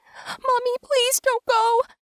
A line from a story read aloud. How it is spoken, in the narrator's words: I whimpered